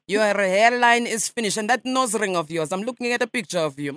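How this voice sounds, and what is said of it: Put-on Russian accent. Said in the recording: “For a Russian, your English is quite good.”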